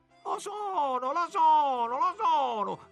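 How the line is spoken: Shouted in chorus. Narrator (Italian): gridarono molti a coro

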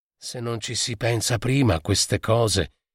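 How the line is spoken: Child speaking quietly. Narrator (Italian): diceva piano a tutti il piccolo De Petri

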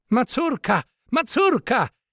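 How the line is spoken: Exclaimed. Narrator (Italian): esclamò in quella Angelica

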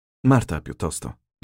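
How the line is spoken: Plain. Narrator (Italian): disse Rocco

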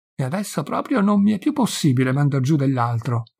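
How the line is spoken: Energetic protest, relieved sigh. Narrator (Italian): protestò Don Diego con qualche energia, traendo un gran sospiro di sollievo

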